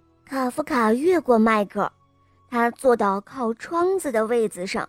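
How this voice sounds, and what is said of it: Usual voice. Nothing is said of it.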